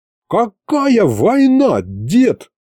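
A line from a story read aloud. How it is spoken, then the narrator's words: Yelling. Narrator (Russian): завопил я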